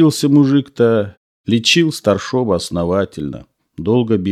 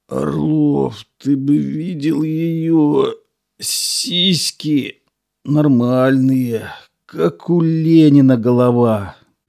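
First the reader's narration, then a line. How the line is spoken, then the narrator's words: Lisping. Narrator (Russian): прошепелявил Михаил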